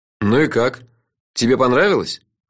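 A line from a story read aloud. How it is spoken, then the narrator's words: Gloomy question. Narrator (Russian): мрачно осведомился я у самого Фила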